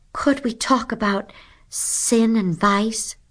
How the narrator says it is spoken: pleaded Lydia Lacey

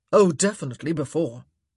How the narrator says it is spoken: Simon growled

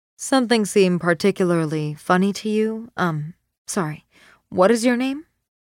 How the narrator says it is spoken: Sarah asks, looking at Maxine coolly

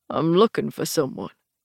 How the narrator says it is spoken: he said, his voice a confused old man's

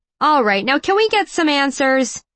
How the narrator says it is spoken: someone shouted

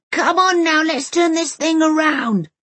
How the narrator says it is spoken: his face turns completely scarlet and he roars

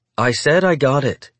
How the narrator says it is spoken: she said firmly

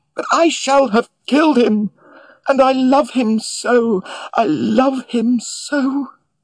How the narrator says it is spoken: She cried out even more vehemently

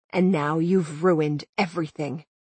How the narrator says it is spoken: he said quietly

